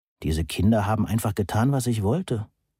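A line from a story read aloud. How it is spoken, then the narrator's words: Murmured, lost in memory. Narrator (German): murmelte Moni, versunken in eine Erinnerung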